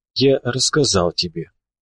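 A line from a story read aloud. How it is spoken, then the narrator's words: Barely audible sigh. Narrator (Russian): еле слышно вздохнул Говоруха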